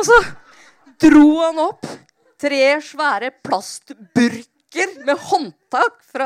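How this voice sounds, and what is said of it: Usual voice. Nothing is said of it.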